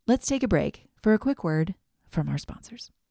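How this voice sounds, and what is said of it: Polished podcast announcer voice. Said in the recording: “in my best podcast voice,”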